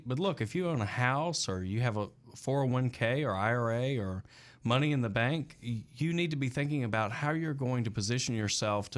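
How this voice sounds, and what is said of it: Southern American accent. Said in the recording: “I'm from the South. That's the accent, right?”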